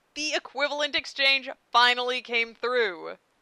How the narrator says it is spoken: Ed cried

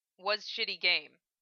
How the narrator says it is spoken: he says

